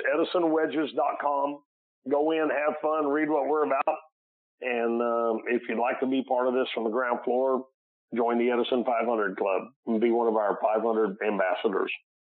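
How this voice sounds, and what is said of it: Cracky, hoarse voice. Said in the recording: “Sorry for my voice being a little cracky today”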